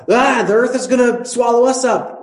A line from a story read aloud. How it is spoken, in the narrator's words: they still yell out